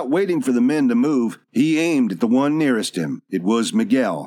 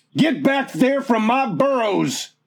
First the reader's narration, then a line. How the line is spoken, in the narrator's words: Once more, Dobbs yelled at the top of his voice